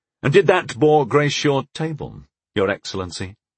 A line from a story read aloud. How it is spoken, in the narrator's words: I asked evenly